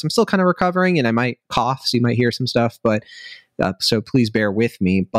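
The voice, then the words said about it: Slightly hoarse voice. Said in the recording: “my voice sounds, it probably sounds like a little bit hoarse.”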